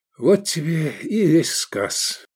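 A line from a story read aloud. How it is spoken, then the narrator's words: Sighing. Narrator (Russian): вздохнул Эдик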